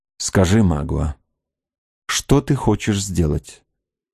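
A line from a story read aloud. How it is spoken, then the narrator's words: Forced firm calm. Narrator (Russian): произнесла Кора, делая величайшие усилия, чтобы говорить твердо и спокойно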